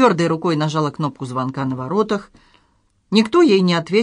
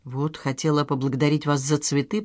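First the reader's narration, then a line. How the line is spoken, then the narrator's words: Embarrassed mumble. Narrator (Russian): пробормотала Надежда, отводя глаза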